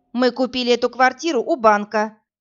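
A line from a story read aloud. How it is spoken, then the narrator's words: Clear, stern woman's voice. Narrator (Russian): четко и строго говорила полная женщина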